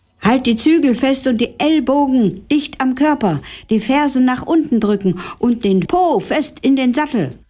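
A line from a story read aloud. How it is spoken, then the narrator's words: Called out. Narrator (German): rief Herr Billerbeek Svea zu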